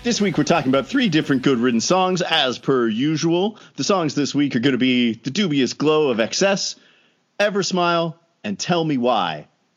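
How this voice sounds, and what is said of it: Exaggerated radio announcer voice. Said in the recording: “I'm going to stop doing that one now, the full-on, like, radio, Rodney radio voice.”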